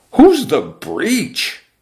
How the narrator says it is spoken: the exponentially multiplying boys cried out

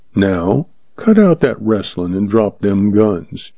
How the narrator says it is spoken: he drawled

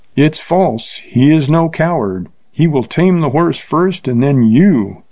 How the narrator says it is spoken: cried a voice so close

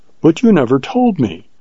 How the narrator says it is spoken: she exclaimed with wonder and reproach

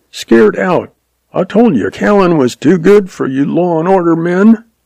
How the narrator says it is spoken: Jack yelped

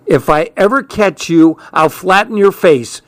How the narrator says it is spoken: she hollered

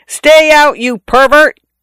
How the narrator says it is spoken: I yelled in a voice not mine

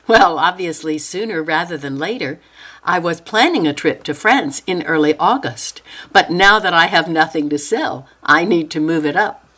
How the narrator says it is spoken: Noelle laughed and said

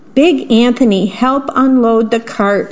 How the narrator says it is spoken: Strega Nona said

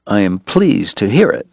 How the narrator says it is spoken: Doc said tightly

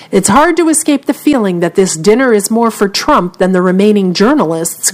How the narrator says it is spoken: grumbled one member of the Washington press corps

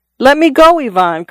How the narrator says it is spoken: cried Simon

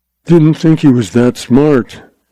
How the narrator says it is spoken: Lawson told himself gloomily

